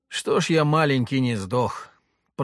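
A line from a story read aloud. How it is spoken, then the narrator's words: Breathless groan while running. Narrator (Russian): простонал Леха, бегущий рядом со мной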